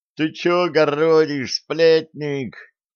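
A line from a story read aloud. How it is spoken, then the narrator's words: Two voices yelling together. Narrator (Russian): Дружно в один голос завопили Васька и Жучок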